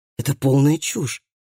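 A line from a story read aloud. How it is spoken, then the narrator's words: Muttering. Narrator (Russian): пробормотал Калеб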